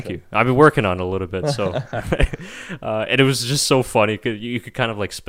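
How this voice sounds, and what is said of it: Usual voice. Nothing is said of it.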